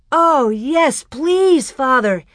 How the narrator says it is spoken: Almanzo almost shouted

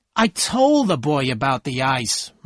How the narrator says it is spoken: Myrtle said angrily

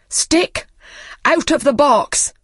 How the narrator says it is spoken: he cried

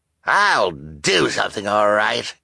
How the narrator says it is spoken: Officer Luciana said with a snarl

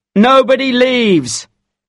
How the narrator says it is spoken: shouted a police officer

